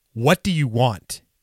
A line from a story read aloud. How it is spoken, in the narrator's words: in an angry, commanding tone